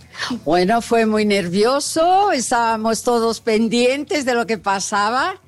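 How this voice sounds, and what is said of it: Foreign-accented Portuguese. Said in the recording (Portuguese): “como é bonito esse sotaque”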